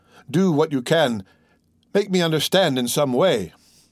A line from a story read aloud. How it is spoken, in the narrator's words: cried he